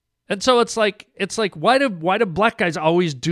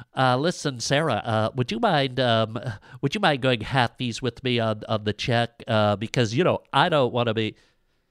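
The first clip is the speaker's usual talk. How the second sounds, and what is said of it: Stereotypical white guy voice. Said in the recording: “do that white guy voice”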